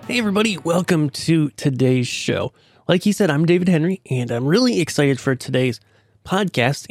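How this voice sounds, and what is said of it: Voice with a cold. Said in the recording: “I'm a little bit under the weather. I got a bit of a cold going on here ... losing my voice or coughing too much”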